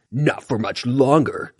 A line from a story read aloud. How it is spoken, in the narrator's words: Tiger Claw growled